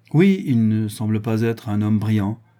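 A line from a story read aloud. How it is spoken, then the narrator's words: Plain. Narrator (French): dit M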